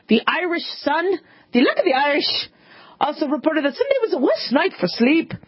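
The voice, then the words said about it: Put-on Irish accent. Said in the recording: “that's my Irish accent”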